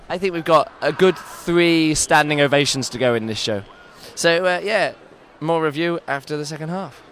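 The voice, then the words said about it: Snivelly, hoarse, tired voice. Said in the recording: “I'm a bit snivelly, as you can tell. I've completely lost my voice. I'm so tired, I'm feeling a bit ill.”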